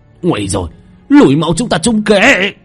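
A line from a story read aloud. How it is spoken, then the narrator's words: Anguished scream. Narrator (Vietnamese): một tiếng hét thảm thiết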